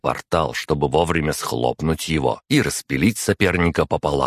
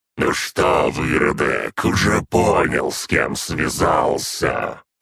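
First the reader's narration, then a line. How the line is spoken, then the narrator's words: Menacing growl from above. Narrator (Russian): прорычал примарх откуда-то сверху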